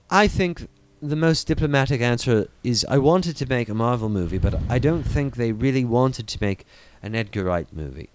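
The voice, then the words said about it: Pompous put-on British accent. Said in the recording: “in my most annoyingly British accent voice I can pontificate with ... That's not Edgar Wright at all. That's like Alec Guinness, but like when he was younger.”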